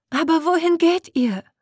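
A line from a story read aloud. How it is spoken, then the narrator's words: Pleading selkie call. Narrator (German): rief eine der Selkies flehend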